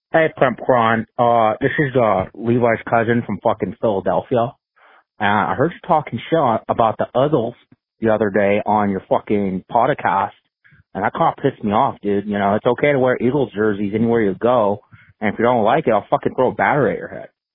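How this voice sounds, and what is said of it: Put-on Philadelphia accent. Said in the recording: “I'm working on my Philly accent.”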